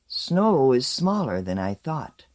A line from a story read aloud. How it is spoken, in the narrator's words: Umexaman said at last, dreamily